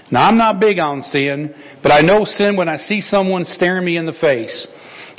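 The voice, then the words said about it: Put-on Southern US accent. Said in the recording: “I should do this with a southern accent because this is a southern person.”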